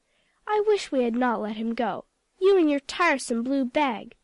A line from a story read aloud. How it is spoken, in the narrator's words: said Aunt Dorcas